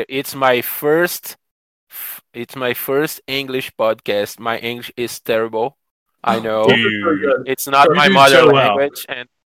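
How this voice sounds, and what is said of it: Non-native English accent. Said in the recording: “I'm sorry about my accent, English.”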